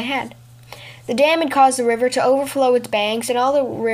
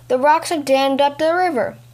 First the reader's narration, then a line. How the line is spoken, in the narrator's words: one of the villagers shouted